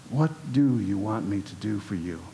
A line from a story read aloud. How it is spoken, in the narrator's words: Jesus asked